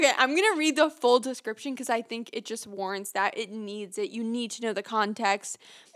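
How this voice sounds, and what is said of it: Usual voice. Nothing is said of it.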